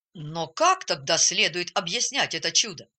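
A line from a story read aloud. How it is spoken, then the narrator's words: Angry question. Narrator (Russian): сердито спросил доктор Аренд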